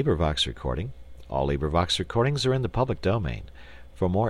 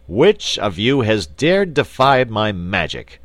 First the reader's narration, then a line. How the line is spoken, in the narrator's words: he shouted in a terrible voice